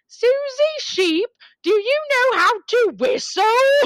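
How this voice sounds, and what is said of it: Put-on British accent, cartoon voice. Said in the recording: “about to do Peppa Pig ... my British accent, I have to say, is up there with like Helen Mirren. Like, I'm that good.”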